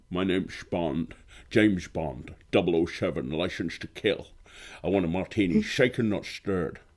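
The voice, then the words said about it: Sean Connery James Bond impression. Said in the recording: “How about James Bond? ... Sean Connery, specifically. ... that's pretty decent. It started off well. ... And it started to go downhill a little bit”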